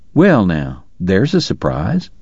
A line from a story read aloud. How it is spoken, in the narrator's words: Doc murmured